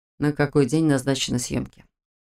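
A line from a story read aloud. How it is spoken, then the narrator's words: Even voice. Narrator (Russian): Ровным голосом осведомился Морозов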